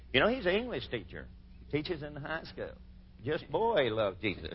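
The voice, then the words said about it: Speaks with a noticeable accent. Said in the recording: “You can understand my accent a little better probably than you can Jesus here.”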